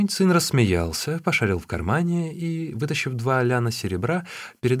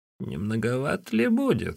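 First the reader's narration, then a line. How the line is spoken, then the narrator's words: Old woman giggling. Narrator (Russian): хихикнула старуха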